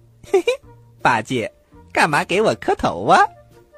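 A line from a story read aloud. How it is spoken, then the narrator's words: Hearty laughter. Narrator (Chinese): 孙悟空大笑着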